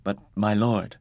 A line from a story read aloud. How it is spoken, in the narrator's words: I quavered